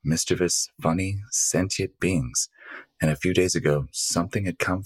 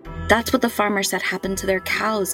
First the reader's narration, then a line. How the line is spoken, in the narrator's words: Camilla exclaimed